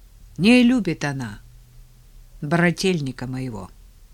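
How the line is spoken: Calm announcement. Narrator (Russian): спокойно объявил Павел

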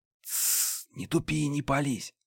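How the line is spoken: Whisper close to ear. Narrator (Russian): раздался шепот Банши за ухом

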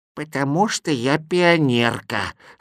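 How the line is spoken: Old woman's voice. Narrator (Russian): старушечьим голосом ответила она

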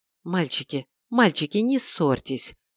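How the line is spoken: Glum appeal. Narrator (Russian): уныло воззвала тайма

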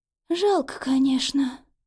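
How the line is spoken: Sighing. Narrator (Russian): вздохнула мать хозяина дома

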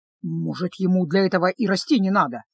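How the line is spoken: Grumbling. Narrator (Russian): проворчал

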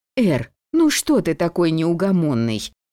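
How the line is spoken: Angry exclamation. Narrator (Russian): стражница сердито воскликнула

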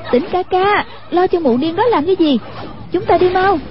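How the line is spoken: Calling out. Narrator (Vietnamese): Hoàng Dung thấy đôi điêu đã đậu xuống hoa, kêu lên

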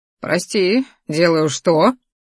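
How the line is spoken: Wry snort. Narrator (Russian): хмыкнул он

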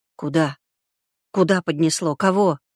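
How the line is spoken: Strained, near hysterical. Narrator (Russian): Белогуров чувствовал, вот-вот сорвется на сиплый, истерический крик, хотя и сдерживается изо всех сил

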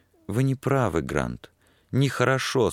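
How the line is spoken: Almost tender. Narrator (Russian): сказала она почти нежно

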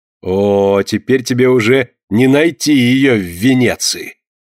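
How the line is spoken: Spiteful triumphant laughing speech. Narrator (Russian): злобно смеясь и торжествующе глядя на него, проговорила Карилла

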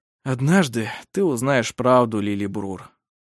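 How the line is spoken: Sighing. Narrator (Russian): вздохнул Вемонт

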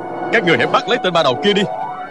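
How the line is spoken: Shout. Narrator (Vietnamese): quát lên

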